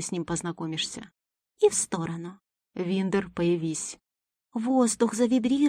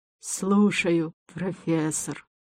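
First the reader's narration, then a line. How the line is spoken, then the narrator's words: Creature growling. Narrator (Russian): Прорычала сущность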